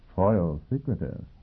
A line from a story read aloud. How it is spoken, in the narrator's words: Yang Yovel murmured